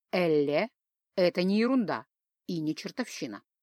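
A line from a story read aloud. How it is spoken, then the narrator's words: Calm explanation. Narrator (Russian): спокойно пояснил Джаст Тудай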